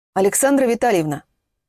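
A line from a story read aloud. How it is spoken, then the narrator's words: Shout from another room. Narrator (Russian): Гость крикнул еще из прихожей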